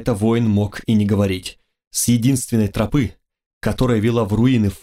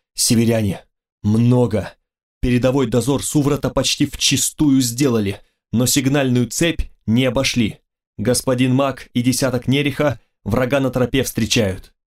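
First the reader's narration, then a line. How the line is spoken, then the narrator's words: Breathless report. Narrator (Russian): выдохнул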